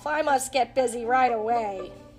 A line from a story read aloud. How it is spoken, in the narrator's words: Bugs chuckled to himself